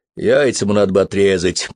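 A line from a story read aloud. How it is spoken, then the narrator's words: Grumbled. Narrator (Russian): проворчал Вон Купидон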